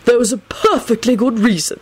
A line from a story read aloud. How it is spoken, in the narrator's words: Albus grumbled